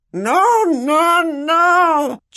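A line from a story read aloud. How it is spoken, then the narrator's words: Shrieked. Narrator (Spanish): chilló Dobby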